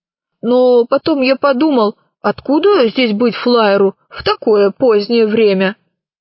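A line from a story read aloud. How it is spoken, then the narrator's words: Plain. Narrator (Russian): ответил дежурный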